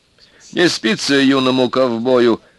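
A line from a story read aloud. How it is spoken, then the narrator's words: Rather loud, smiling. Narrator (Russian): громковато сказал Володя, перестав смеяться, но еще улыбаясь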